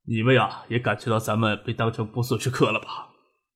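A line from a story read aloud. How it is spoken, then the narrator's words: Worried. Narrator (Chinese): 陶书玉没有怨气，而是担忧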